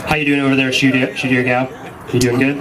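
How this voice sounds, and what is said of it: Put-on deep voice. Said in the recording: “I felt like you went deep voice on us. Like he was like, "How you doing?"”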